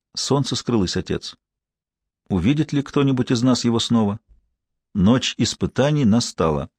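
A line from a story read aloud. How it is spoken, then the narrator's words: Sad woman. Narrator (Russian): Она печально произнесла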